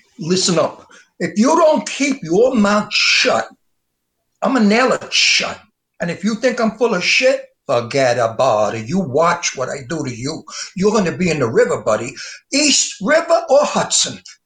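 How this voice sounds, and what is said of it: Tough mob gangster voice. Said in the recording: “Mob impersonation? Give me a little bit of that mob thing. I want to see it for be a gangster officer.”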